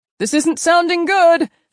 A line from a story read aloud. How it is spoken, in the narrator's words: Finn yelled somewhere behind them